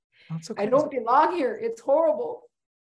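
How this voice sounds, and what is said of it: Emotional, choked-up speaking voice. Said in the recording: “getting emotional.”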